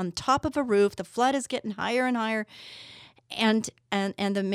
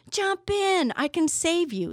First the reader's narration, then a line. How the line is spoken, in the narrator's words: The fellow in the motorboat shouted